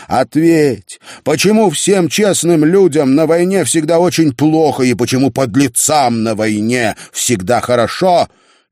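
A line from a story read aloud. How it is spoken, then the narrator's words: Shouting. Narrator (Russian): Он кричал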